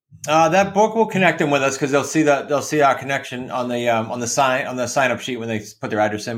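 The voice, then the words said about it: New England accent. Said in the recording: “my New England accent”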